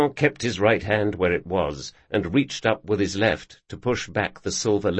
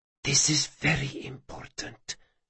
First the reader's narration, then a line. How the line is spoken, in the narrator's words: she whispered